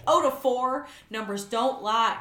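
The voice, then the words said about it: Whiny attempt at a Southern accent. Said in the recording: “I can't keep doing, like, the Southern accent. ... It's more whiny than Southern.”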